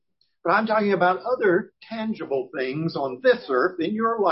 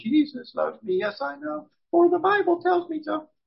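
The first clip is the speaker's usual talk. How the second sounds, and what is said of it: Sung in falsetto. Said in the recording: “That was my falsetto”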